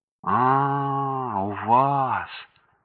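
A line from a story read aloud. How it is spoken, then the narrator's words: Boy's disappointed drawl. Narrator (Russian): разочарованно протянул мальчик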